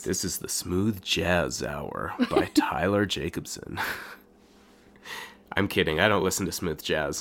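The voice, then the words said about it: Unusually deep, low voice. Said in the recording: “a change in my voice, that is because I am sick ... the rare deep voice”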